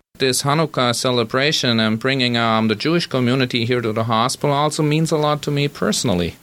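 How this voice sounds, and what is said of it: German accent. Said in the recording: “my German accent”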